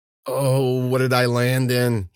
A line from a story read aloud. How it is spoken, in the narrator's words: he moaned